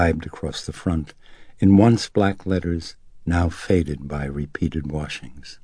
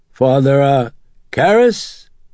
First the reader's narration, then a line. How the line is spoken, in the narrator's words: Kinderman called to him hoarsely